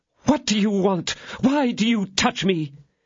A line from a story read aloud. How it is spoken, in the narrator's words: raising herself up suddenly, she exclaimed